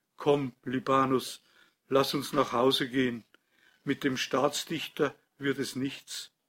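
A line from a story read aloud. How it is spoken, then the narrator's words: Toneless voice. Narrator (German): sagte er mit tonloser Stimme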